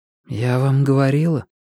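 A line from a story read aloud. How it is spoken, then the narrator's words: Quiet, calm voice. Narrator (Russian): сказала Рэйчел тихим, но совершенно спокойным голосом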